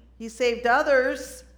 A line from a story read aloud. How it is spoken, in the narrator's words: The religious leaders mocked him and said